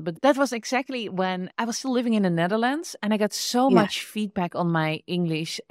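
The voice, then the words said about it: Dutch accent in English. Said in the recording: “my Dutch accent ... my Dutch accent”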